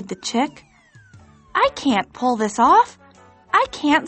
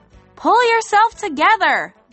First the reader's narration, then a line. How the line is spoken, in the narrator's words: the others cried